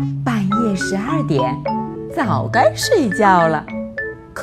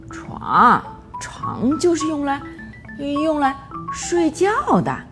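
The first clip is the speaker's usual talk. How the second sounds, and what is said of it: Quiet sleepy mumble. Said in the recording (Chinese): “老鼠妈妈困得眼睛都睁不开了， 小声嘟囔着”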